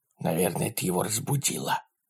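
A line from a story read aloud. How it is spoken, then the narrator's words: Whisper. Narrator (Russian): прошептал Ларри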